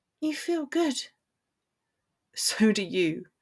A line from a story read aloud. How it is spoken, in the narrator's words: he murmured